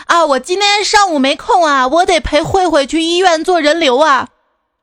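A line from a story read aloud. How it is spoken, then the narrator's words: Loud, cheerful middle-aged woman. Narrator (Chinese): 一个陌生的大妈接电话声音还特别大，十分爽朗的跟电话那头说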